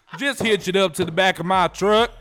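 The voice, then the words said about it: Put-on country accent. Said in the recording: “it's a country accent”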